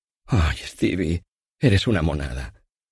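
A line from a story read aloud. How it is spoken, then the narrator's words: Loving, tender voice. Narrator (Spanish): Me dijo entonces con esa voz amorosa con la que yo me derretía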